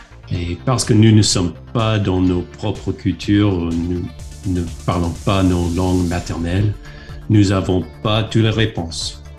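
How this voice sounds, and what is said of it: Foreign accent speaking French. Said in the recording (French): “les missionnaires de GEM sont les étrangers dans les pays où ils, habitent. Donc, euh, vous pouvez bien sûr entendre mon accent.”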